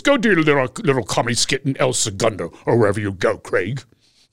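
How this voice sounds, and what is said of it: Imitates another person's voice. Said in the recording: “That is a good impression.”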